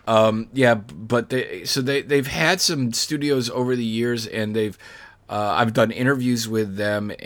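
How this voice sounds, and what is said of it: Voice going hoarse. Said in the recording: “Losing my voice.”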